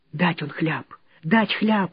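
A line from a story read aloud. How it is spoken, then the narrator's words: Frightened. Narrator (Russian): испуганно заговорила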